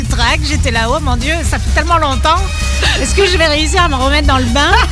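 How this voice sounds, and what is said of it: French accent from France, Alsatian. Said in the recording (French): “ton petit accent. Hein, la petite française. ... est alsacienne.”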